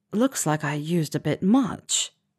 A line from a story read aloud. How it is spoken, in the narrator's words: he said